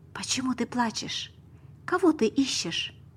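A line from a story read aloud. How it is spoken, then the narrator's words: Soft. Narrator (Russian): сказал мягко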